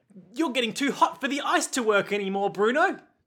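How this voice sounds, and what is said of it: Weird, bad put-on Australian accent. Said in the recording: “Now you're just going weird, bad Australian accent.”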